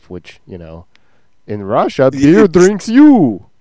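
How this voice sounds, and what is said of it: Yakov Smirnoff Russian accent impression. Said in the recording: “Was that Russian? ... No, it was Yakov.”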